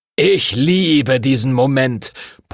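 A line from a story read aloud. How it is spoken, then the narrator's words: Booming, blustering. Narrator (German): polterte Master Duncan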